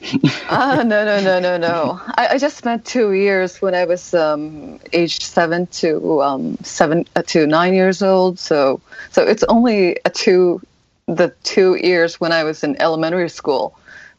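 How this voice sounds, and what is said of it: Good American English accent. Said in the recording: “this amazing American accent or genuine accent ... the accent is pretty good”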